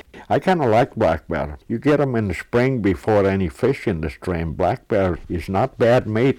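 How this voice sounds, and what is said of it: Distinct foreign accent. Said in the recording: “Don't you just love that accent?”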